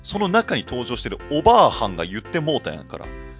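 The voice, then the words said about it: Sudden switch to Kansai dialect. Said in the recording (Japanese): “急に関西弁でたけど”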